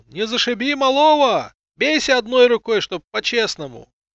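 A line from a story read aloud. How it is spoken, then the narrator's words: Laughing crowd shouting. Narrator (Russian): Люди смеялись, выкрикивая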